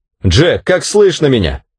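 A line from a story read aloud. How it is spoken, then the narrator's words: Shout. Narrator (Russian): крикнул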